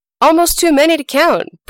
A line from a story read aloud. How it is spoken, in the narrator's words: Br'er Rabbit yelled back